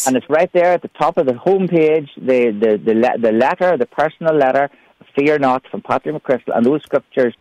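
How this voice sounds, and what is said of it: Irish accent. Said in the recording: “you can understand my Irish accent”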